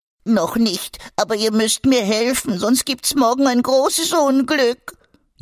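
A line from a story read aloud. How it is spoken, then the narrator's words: Whining, lamenting. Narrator (German): jammerte Egon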